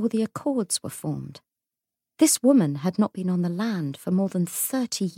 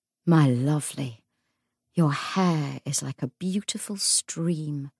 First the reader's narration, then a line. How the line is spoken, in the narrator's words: murmured Anna